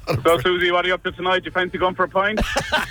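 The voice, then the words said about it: Put-on accent. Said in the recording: “That's good accent. ... Well done.”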